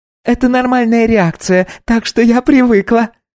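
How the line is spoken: Laughing. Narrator (Russian): рассмеялась Окей

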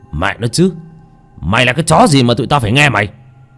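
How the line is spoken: Roaring. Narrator (Vietnamese): Một tên gầm lên

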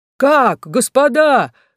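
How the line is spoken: Exclamation. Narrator (Russian): воскликнул он

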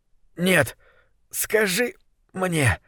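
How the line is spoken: Heavy hoarse wheeze. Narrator (Russian): тяжко прохрипел он

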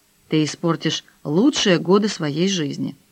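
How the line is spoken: Grumbled. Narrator (Russian): Даниэль буркнул

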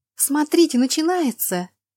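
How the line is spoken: Joyful breathy female exclamation. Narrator (Russian): радостно выдохнула одна из дам

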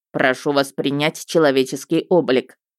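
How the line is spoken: Stern demand. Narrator (Russian): потребовал строго

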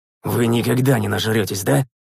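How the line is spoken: Displeased grumble. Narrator (Russian): Недовольно буркнул я

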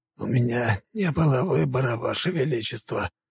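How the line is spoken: Hoarse wheeze. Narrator (Russian): просипел князь

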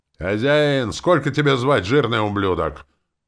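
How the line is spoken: Big man yelling again. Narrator (Russian): Снова завопил этот здоровяк

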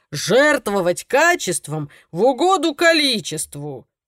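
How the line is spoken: Grumbling. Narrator (Russian): проворчал он

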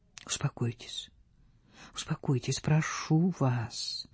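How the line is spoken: Soft, soothing. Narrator (Russian): повторял он мягко

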